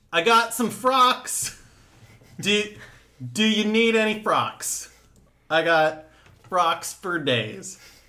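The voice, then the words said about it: Comic character voice. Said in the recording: “do your Froxman voice”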